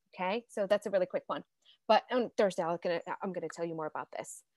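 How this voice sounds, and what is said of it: Very fast speech. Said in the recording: “I'm talking so fast.”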